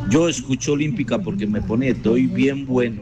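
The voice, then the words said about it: Radio announcer-style voice. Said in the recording (Spanish): “con voz de locutor”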